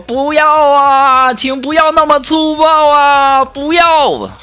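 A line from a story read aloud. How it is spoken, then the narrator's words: Panicked crying out. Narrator (Chinese): 我就赶紧大叫啊，我就说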